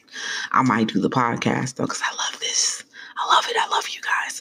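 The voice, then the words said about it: Excited whispering. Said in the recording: “I don't know why I'm whispering, but I'm so excited, and I whisper when I'm excited.”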